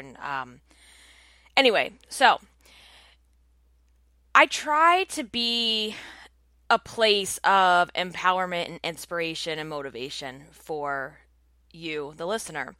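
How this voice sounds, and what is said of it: Congested voice from a cold. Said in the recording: “I'm actually coming down with a cold, and you can probably hear it in my voice”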